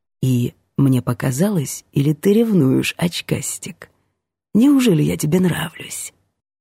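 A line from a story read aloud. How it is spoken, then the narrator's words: Whispered. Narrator (Russian): Ванька … прошептать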